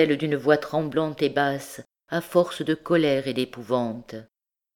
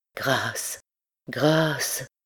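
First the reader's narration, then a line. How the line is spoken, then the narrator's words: Priest murmuring. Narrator (French): murmura le prêtre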